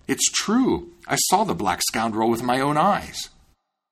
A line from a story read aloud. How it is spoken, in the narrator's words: the miller exclaimed